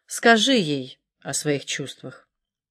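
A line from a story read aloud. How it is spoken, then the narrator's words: Calm. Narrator (Russian): Валерия спокойно добавила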